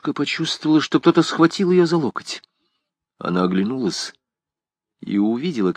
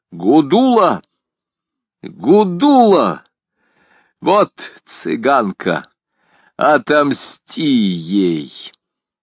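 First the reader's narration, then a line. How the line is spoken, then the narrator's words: Loud shout. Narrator (Russian): Тогда он громко крикнул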